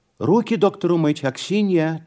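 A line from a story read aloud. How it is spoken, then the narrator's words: Immediate shout. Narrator (Russian): тотчас крикнула Анна Николаевна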